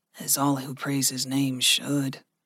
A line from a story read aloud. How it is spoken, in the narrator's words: Gregory said softly